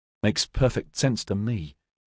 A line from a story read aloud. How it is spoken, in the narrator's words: muttered to herself